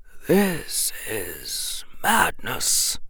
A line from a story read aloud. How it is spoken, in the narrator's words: The old wizard muttered